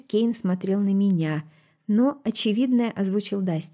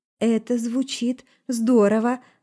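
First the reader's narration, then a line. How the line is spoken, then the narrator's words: Forced, strained. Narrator (Russian): выдавила со стороны Таша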